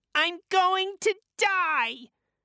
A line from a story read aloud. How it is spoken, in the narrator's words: cried Colin